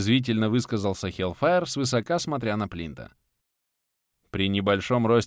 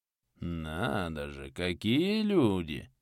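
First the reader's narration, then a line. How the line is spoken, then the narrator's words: Snide drawl. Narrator (Russian): ехидно протянул Плинта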